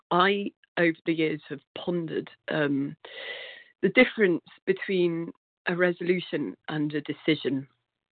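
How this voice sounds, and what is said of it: Congested, stuffy voice. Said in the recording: “with a stinking cold, so excuse my voice”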